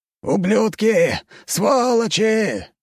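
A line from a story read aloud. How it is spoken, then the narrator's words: Hoarse shout. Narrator (Russian): хрипло выкрикнул комендант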